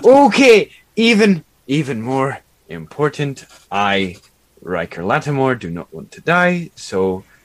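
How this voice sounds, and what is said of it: Slipping into another character's accent. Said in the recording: “my accent is copying hers”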